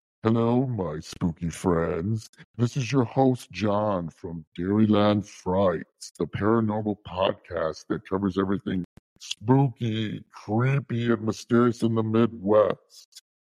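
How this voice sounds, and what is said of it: Spooky put-on voice. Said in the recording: “my spooky voice ... scared you”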